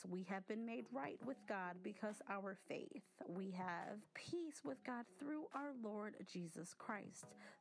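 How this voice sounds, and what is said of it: Fast speech. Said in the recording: “I'm talking too fast ... I'm a fast talker.”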